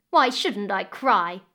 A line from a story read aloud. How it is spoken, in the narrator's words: the stepdaughter snapped back at the crocodile